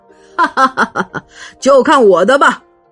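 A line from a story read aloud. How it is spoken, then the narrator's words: Hearty laugh, loud. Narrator (Chinese): 俄普普罗爽快的哈哈大笑，大声说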